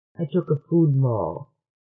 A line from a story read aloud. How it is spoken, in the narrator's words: Trit mumbled